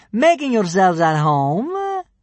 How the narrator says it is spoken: sneered the first kidnapper

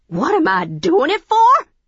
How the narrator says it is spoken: She screeched

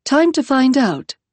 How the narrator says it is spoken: she said

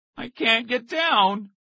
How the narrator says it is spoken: his brother groaned

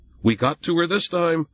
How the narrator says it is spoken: Jonathan yelled

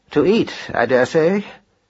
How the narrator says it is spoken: said Marcus gloomily

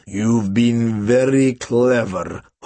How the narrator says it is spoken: Hoover snarled

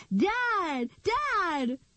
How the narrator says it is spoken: shouted as she ran

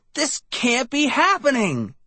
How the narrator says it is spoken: I shrieked

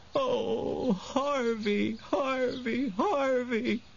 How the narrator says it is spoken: she sobbed

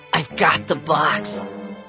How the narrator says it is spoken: Bradley whispered

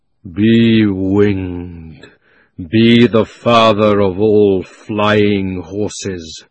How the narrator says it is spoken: roared Aslan in a voice that shook the ground

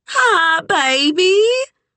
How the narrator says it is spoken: she squealed, so loud Kit could feel her inner ears pulse

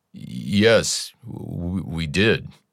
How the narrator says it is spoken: His voice breaking, Trevor said

